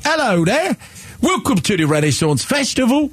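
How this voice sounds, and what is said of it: Put-on British accent. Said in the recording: “Give us your best British accent.”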